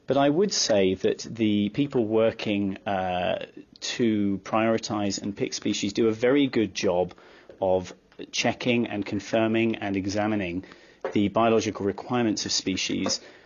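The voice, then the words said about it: Non-American accent. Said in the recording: “as you can probably tell from my accent, I'm not American”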